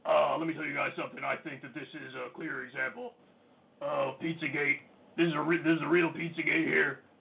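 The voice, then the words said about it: Alex Jones impression. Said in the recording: “My Alex Jones impression has gotten worse since he's been off YouTube.”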